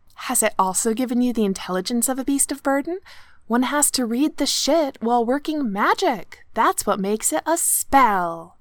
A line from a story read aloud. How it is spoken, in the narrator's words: Kipriana said faux sweetly